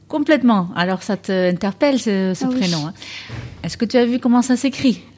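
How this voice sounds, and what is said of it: Slight Dutch accent. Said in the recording (French): “vous aviez un petit accent ... j'ai un accent. Je viens des Pays-Bas.”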